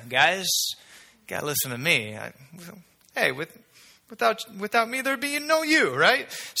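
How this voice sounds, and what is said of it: Put-on Italian accent. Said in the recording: “the Italian wannabe accent came out”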